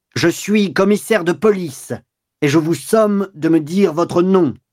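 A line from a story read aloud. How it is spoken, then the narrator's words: Shout trembling with rage. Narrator (French): Georges, qu'une colère bestiale faisait trembler, cria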